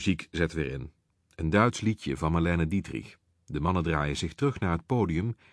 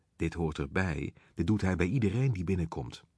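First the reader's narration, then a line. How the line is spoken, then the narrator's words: Large man whispering. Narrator (Dutch): een enorme man, fluistert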